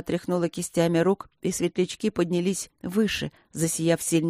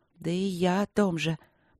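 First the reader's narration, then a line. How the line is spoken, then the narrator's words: Muttered. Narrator (Russian): пробормотала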